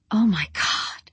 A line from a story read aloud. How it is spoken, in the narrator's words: Rosie whispered